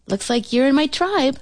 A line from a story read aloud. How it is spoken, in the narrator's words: I chirped